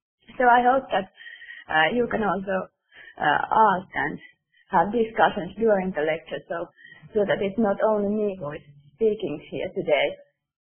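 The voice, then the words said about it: Strained voice from a bad flu. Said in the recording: “Unfortunately, I have quite bad flu, so my voice is not very good today”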